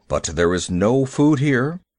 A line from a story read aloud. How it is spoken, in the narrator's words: said Father Wolf stiffly